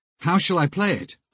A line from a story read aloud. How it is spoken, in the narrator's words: asked Mick, somewhat nervously